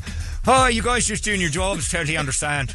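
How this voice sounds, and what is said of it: Put-on Irish accent. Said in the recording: “your Irish accent”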